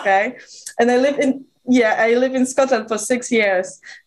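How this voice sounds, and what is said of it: Mixed Eastern European and British accent. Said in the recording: “my accent is literally all over the place ... There's some Eastern European, but there's also this very UK kind of English vibe ... a melange of all these beautiful sounds”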